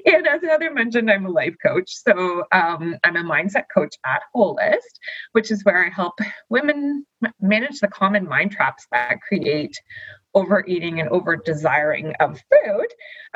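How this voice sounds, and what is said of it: Canadian accent. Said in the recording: “my cute little Canadian accent”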